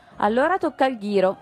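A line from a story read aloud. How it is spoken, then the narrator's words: Two voices shouting together. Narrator (Italian): urlarono insieme gli altri due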